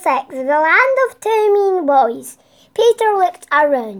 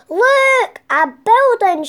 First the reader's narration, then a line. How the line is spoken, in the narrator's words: shouted Judy